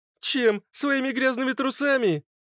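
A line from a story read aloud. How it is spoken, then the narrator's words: Mocking laughter. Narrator (Russian): рассмеялась фитилек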